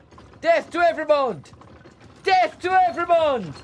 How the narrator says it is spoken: the man who was shouting

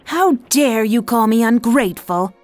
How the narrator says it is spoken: yelled the girl

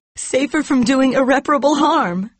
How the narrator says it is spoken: she cried

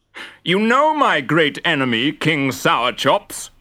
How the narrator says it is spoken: roared Guzzle

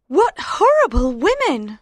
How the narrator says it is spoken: cried

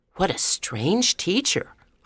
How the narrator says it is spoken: I whispered to Barbara

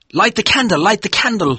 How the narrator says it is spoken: he shouted

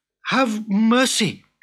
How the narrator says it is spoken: cried Abdullah

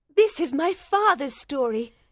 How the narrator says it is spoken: cried Miss Manette excitedly

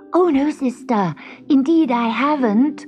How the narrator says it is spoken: cried Gobellino

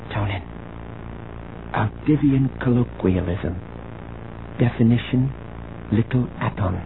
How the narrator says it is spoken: She whispered

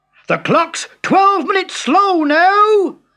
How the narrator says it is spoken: roared his father

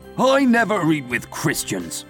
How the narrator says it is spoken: grumbled Shylock

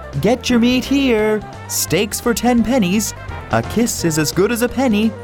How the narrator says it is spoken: He called out

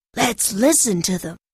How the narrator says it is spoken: whispered Tom

